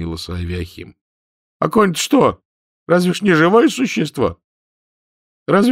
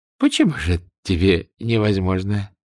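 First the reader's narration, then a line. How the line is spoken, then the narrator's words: Ingratiating question. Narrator (Russian): вкрадчиво спросил Гладышев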